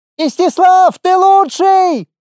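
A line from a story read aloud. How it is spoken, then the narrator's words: Girl shouting. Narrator (Russian): закричала одна из девчонок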